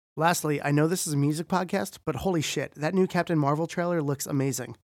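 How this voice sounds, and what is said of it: Voice sounds a little funny, strained. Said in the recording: “my voice sounds a little funny. I was screaming along to Alkaline Trio the other night and my body still hasn't fully recovered”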